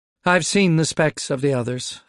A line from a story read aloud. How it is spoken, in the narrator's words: Asanto confirmed tightly